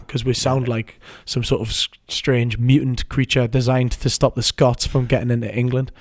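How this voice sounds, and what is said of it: Toned-down Newcastle English accent. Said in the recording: “we've got a strange accent ... It's a British ... This is my international accent. I'm toning down the Newcastle”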